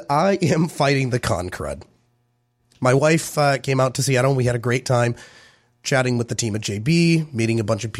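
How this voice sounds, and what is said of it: Hoarse, squeaky sick voice. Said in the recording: “excuse my voice ... I am trying to squeak to make noises here into the microphone”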